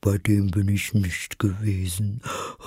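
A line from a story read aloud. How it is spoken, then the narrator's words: Sighing. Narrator (German): sagte die falsche Schildkröte mit einem Seufzer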